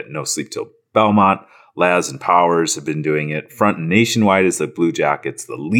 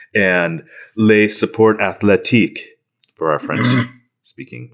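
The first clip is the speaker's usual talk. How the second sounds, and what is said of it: Attempted French accent. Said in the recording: “How was my accent there? ... It was close.”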